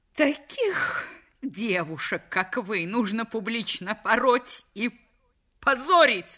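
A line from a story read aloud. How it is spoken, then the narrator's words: Exclaimed. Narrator (Russian): воскликнула миссис Вейд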